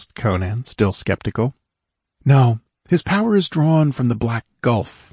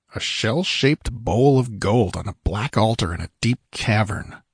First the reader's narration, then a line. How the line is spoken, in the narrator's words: Conan muttered, frowning as he sought to capture the elusive image